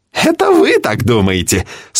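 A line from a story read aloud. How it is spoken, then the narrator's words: Laughing. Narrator (Russian): смеялся биолог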